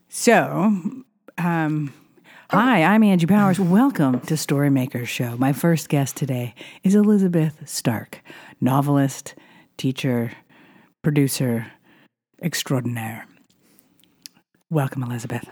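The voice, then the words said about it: Polished public-radio announcer voice. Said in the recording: “This is my NPR voice for my NPR garage.”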